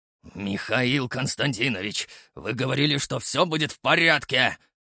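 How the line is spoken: Restrained angry growl. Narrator (Russian): прорычал на меня Титов, едва сдерживаясь, чтобы не перейти на крик

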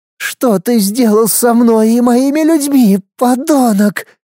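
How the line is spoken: Hoarse furious hiss. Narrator (Russian): хрипло процедила принцесса с яростью в глазах

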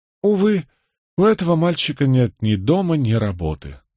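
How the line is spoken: Tired remark. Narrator (Russian): устало проронил Стоук

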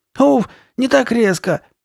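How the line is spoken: Shout. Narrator (Russian): крикнула она

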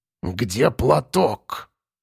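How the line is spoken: Through gritted teeth. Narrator (Russian): Процедила баба Марфа

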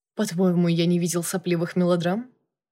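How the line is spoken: Scoffing snort. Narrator (Russian): Юрьевский фыркнул

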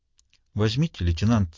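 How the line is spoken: Trembling voice. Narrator (Russian): сказала Констанция дрогнувшим голосом

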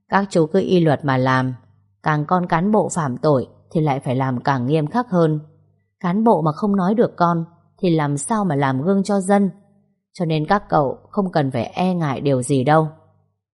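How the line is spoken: Hearty laugh. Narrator (Vietnamese): Ông giám đốc công an cười lớn rồi nói

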